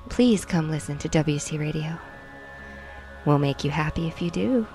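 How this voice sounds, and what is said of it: Put-on sexy seductive voice. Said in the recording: “We could do the sexy one ... This is my sexy voice.”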